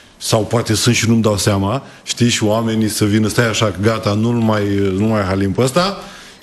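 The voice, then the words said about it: Slight Moldovan Romanian regional accent. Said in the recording (Romanian): “Ți-ai păstrat accentul, n-a plecat cu totul. ... accentul în Buzău ... partea Moldovei ... avem o leacă.”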